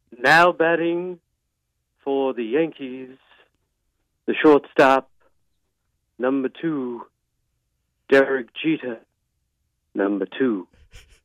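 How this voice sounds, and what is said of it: Imitates another person's voice. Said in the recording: “Do you have a go-to impression that you can do? ... I can't impersonate anyone. All right, I'm going to try one”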